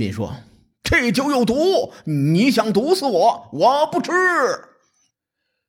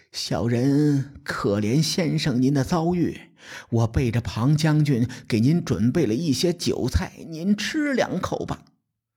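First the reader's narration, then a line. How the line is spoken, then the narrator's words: Quiet voice. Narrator (Chinese): 心腹之人，小声地说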